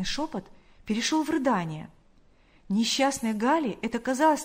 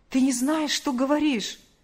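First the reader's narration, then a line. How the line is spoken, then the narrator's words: Exclamation. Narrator (Russian): воскликнул он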